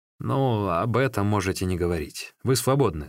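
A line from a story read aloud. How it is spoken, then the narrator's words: Plain. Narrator (Russian): сказал советник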